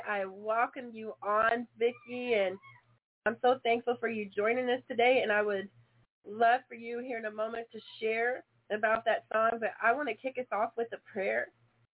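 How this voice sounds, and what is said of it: Raspy, hoarse voice. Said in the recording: “I'm sorry for a little bit of a raspy voice today. I have been fighting a cough”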